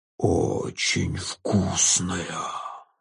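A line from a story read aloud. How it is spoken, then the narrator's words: Ghoul's hiss. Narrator (Russian): зашипел упырь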